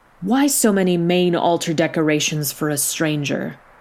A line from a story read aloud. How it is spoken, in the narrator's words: began to feel mistrust, and started grumbling